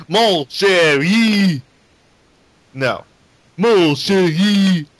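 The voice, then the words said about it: Bad fake Cajun French Gambit accent. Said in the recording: “Gambit was... actually had a real Cajun accent ... it sounds like a retard trying to sound French”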